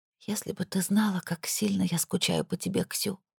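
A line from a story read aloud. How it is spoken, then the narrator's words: Whisper in Russian. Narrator (Russian): прошептала на русском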